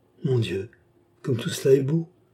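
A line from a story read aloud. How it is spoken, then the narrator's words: Awed murmur. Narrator (French): murmura la fleuriste, émerveillée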